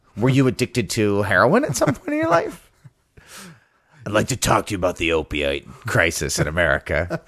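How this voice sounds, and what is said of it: Imitates another person's voice. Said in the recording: “That was my Triple H impression.”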